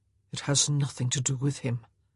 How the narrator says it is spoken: he murmured

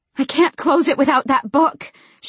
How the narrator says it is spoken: moaned

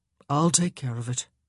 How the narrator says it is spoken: he said gently

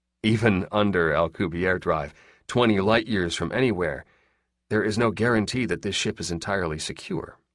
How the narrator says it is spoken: the spy said calmly

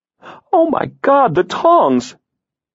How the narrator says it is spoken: she exclaimed

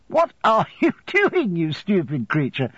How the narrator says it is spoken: said, laughing

